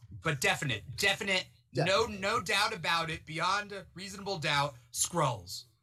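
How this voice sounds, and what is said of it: Imitates a type of online creator. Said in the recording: “that's my impression of certain TikTokers.”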